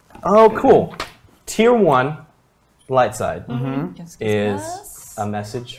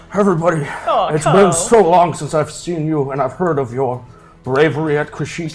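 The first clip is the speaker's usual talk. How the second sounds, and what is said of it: Imitates another person's voice. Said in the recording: “to do the Nixon voice”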